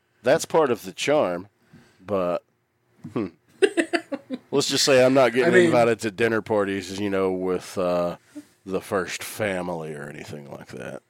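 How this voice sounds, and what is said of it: Southern US accent. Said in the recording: “your southern accent ... my dialect and accent”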